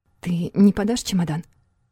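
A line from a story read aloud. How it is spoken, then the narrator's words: Timid request. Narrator (Russian): Робко попросила Юна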